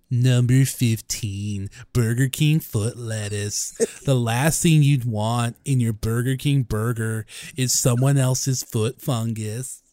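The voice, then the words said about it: Imitates another person's voice. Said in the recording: “I'm doing a chills voice. ... No, I can do chills. Hold on.”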